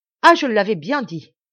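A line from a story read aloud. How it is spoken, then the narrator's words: Exclaiming. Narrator (French): s'écria Maurice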